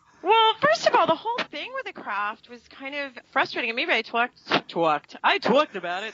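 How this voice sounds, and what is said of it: Brooklyn accent. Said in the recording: “That's my real accent, I think ... I sound like I'm from Brooklyn”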